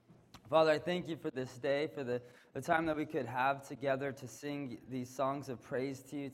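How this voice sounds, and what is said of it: Weak voice from a cold. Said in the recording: “I'm fighting a little cold. My voice is a little weak”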